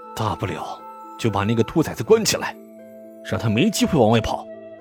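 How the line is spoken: Through gritted teeth. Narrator (Chinese): 林父咬牙道

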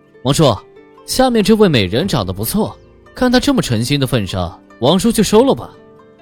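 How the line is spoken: Teasing, laughing. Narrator (Chinese): 周王已经忍不住的笑出来，调笑道

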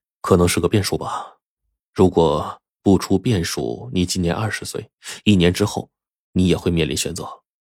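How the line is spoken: Sighing, resigned. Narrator (Chinese): 火烈却叹了口气说

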